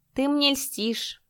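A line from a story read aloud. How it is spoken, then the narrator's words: Mocking. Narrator (Russian): насмешливо сказал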